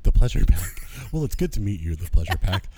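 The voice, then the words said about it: Deliberately low, deep voice. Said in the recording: “what my voice is so low right now ... this low tone”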